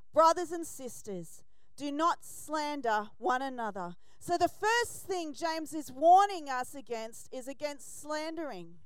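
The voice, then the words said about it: Australian accent. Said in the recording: “I say Greek words with an Aussie accent.”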